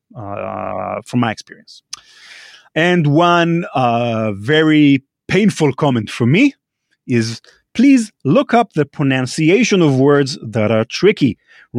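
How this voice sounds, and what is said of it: Non-native English accent. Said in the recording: “it took me a while to get used to Rand's accent ... I'm not a native English speaker”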